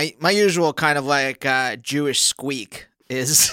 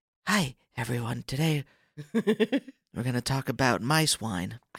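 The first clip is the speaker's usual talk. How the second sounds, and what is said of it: Soothing public-radio host voice. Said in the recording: “radio voice ... NPR shows ... it's soothing”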